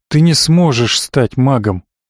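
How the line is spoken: Very sad. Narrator (Russian): сказал он совсем грустно

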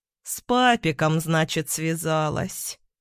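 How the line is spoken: Thoughtful drawl. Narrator (Russian): задумчиво протянул Никита

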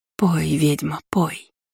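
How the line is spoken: Soundless whisper. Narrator (Russian): беззвучно прошептала

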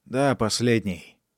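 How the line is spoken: Gloomy repetition. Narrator (Russian): мрачно повторил Поль

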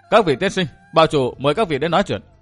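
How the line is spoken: Loud call. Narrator (Vietnamese): Đại hán lớn tiếng gọi

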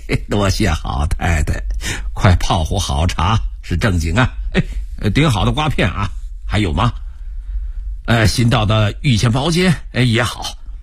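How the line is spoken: Laughing. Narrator (Chinese): 罗照笑着说

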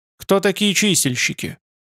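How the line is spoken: Plain. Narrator (Russian): спросил Михаил

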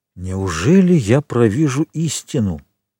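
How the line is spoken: Plain. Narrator (Russian): сказал он наконец

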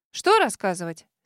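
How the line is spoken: Puzzled question. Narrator (Russian): с недоумением уточнила подруга

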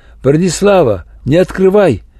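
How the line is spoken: Shouted. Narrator (Russian): Валерий Яковлевич крикнул

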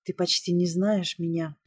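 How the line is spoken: Soft, gentle. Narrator (Russian): мягко проговорила

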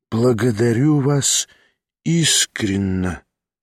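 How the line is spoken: Heartfelt voice. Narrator (Russian): проникнутым голосом произнес Кармазинов

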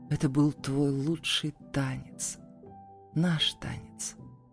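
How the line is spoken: Quiet. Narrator (Russian): произнес тихо

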